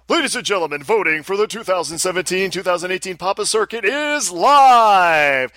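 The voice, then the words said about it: Booming announcer voice. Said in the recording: “I will do announcer voice.”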